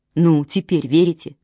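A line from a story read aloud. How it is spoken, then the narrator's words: Plain. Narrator (Russian): спросил Чейз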